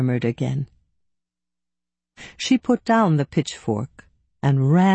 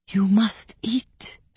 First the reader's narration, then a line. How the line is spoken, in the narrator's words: whispered